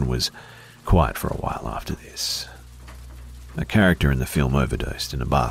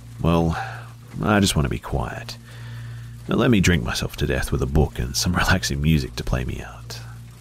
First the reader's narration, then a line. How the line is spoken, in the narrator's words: I sighed